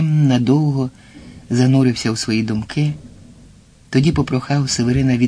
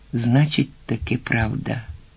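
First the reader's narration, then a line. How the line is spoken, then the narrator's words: Mutter. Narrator (Ukrainian): пробурмотів Вільям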